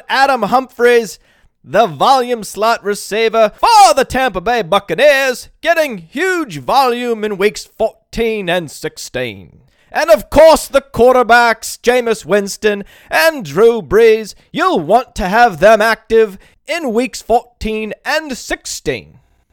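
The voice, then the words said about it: Put-on accent, inconsistent. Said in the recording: “this accent has been all over the place”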